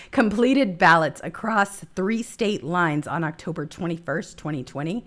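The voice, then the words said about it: Strained, failing voice. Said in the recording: “Sorry, I'm losing my voice.”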